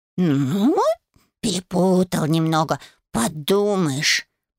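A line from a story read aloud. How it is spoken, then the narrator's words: Cat grumbling. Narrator (Russian): проворчал кот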